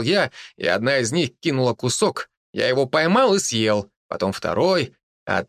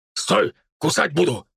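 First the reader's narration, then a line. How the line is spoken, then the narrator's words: Growl. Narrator (Russian): прорычал я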